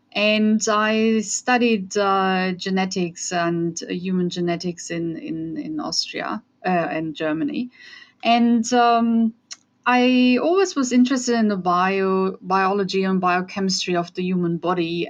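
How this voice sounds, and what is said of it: Austrian German-accented English. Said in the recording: “as you can hear from my accent, I'm from Europe. So I grew up in Germany. I'm Austrian though.”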